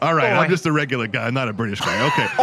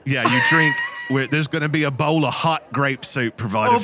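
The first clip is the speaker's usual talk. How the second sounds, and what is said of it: Put-on British accent. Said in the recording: “let me shake this British accent off... It's very Moorish, isn't it”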